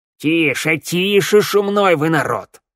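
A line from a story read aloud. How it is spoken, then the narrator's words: Angry elder shouting. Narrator (Russian): сердито прикрикнул старейшина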